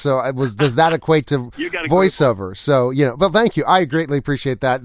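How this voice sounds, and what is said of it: Smooth radio-style voice. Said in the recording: “you've got a radio voice ... Radio voice.”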